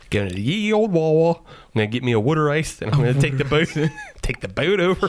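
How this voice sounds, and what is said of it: Put-on mid-Atlantic Pittsburgh-style accent. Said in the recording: “Why is Ben Franklin of a Pittsburgh accent? ... It's a mid-Atlantic accent.”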